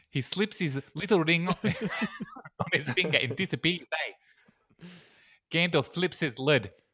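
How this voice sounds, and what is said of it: Put-on South African accent. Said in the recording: “It keeps going South African. I can't not make it South African ... I'm just going to do it in a South African accent because I can do that”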